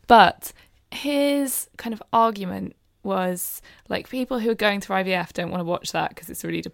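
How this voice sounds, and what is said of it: Usual voice. Nothing is said of it.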